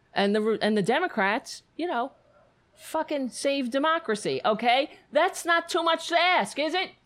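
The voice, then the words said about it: Yelling, agitated ranting voice. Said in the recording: “I'm yelling and flailing my arms”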